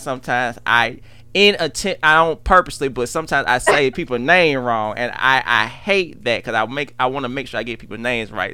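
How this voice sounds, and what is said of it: Southern US country accent. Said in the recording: “this country accent of mine”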